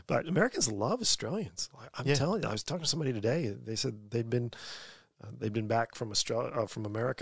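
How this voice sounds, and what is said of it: Australian accent, somewhat softened. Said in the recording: “mistaken for somebody who was born in Australia ... you're really smashing that accent ... It was a lot stronger when I lived out in Bourke, but Sydney's kind of, I don't know, domesticated that accent a little bit.”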